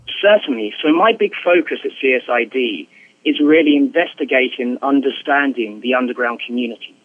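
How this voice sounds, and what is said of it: British English accent. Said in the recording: “he has a fantastic British accent ... apologies for the English accent”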